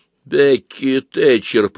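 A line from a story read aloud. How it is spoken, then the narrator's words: Hoarse, trembling. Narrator (Russian): прохрипел, начиная дрожать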